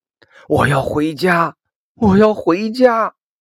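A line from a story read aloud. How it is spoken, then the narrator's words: Repeated shouting. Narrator (Chinese): 一直喊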